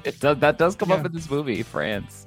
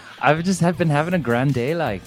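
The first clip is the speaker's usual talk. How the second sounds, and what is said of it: Attempted Irish accent. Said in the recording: “All of our Irish listeners are going to turn it off, I think. I wish I could do an Irish accent.”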